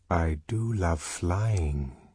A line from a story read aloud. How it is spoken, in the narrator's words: they whispered